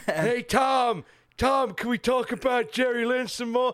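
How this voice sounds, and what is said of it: Imitates another person's voice. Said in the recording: “my impression of Xbox”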